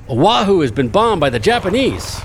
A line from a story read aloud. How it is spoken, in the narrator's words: a Marine driving a motorcycle with a sidecar drove by and shouted